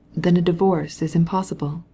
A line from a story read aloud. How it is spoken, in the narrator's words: he asked gently